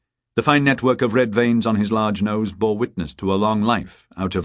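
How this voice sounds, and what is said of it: Usual voice. Nothing is said of it.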